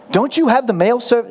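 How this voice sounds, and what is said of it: Bad put-on American accent. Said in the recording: “This is a terrible accent, but sorry to all the Americans and Canadians in the room.”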